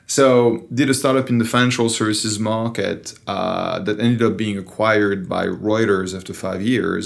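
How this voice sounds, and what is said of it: French accent in English. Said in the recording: “I still have the French accent, even after 16 years in the Valley ... I have a French accent when speaking English”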